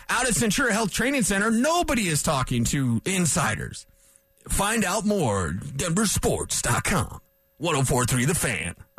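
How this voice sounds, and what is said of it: Booming big-voice announcer impression. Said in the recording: “Imagine the big voice guy, right? ... That was my big voice impression.”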